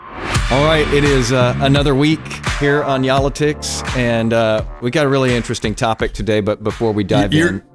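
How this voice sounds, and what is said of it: Slow, mellow, laid-back speech. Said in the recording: “Why are you talking so slow, man? ... Maybe I'm a little mellow today. Maybe I'm laid back.”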